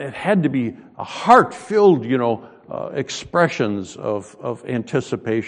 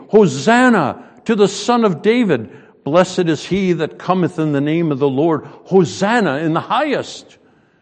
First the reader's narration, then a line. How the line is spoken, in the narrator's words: the multitude that went before and followed cried, saying